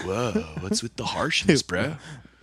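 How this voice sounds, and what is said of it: Exaggerated laid-back surfer accent. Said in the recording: “zapped out surfer people ... I literally surf people that talk like that ... You're forcing that accent. No one naturally talks like that.”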